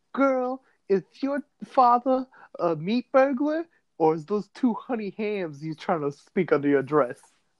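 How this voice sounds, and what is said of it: Imitates a movie character's voice. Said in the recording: “my impersonation of The Ladies' Man”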